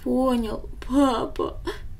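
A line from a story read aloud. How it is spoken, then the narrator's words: Sobbing boy. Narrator (Russian): всхлипнул мальчик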